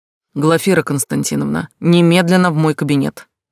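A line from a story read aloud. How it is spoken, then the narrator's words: Sharp voice from doorway. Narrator (Russian): От двери резко прозвучал голос Василия Степановича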